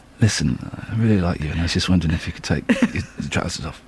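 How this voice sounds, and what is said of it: Put-on seductive voice. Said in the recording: “sexy voice.”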